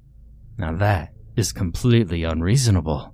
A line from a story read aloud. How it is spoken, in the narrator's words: I spluttered